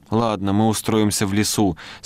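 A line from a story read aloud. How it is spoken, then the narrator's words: Plain, young boy. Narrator (Russian): сказал меньшой мальчик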